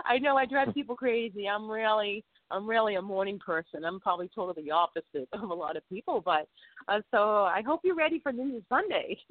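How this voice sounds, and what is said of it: Boston accent. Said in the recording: “I have a Bostonian accent ... I'll never escape the Bostonian accent”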